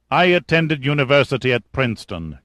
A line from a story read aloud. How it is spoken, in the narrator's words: Kazim replied dryly